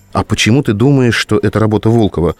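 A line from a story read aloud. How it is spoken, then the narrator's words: Plain. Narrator (Russian): спросила Лена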